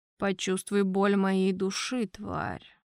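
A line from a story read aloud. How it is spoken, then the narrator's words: Very quiet speech. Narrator (Russian): тихо-тихо произнес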